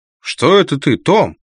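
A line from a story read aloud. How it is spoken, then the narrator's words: Conductor shouting back. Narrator (Russian): крикнул в ответ кондуктор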